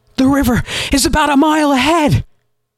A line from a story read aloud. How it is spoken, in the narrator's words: she shouted to Galen, nearly out of breath